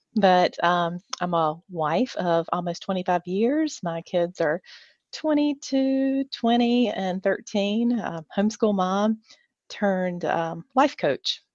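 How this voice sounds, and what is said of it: North Carolina Southern accent. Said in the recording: “I am from North Carolina, live in Oshkosh, hence the accent.”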